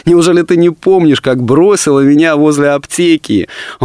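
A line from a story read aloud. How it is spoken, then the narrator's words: Laughing. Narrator (Russian): Он рассмеялся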